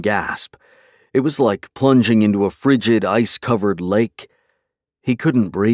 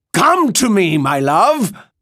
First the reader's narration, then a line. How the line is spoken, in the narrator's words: cried Viego